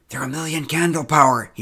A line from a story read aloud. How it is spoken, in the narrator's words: whispered